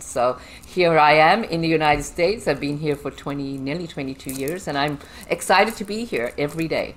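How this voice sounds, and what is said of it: Foreign accent, differs from host's. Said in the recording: “I hear an accent different than my accent”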